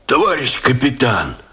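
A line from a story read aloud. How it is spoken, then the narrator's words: Hoarse rasp. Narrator (Russian): прохрипел Степанов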